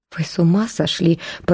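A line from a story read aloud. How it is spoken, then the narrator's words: Mutter. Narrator (Russian): пробормотал Верман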